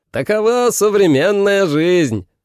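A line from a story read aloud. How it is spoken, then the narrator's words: Shouting. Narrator (Russian): закричал Энтё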